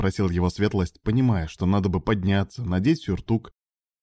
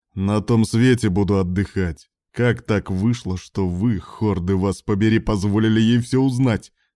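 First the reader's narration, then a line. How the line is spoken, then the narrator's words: Growling. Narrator (Russian): прорычал Грейсток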